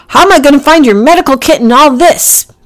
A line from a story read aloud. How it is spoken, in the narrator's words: Packy shouted